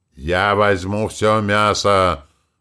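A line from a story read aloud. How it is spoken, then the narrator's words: Troll roaring. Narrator (Russian): взревел тролль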